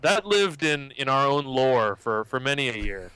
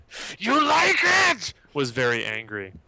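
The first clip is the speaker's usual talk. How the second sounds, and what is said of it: Angry imitation of a film character. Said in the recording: “his impression of that guy was classic for years, because he insisted that the guy was a very angry man. So it was his impression.”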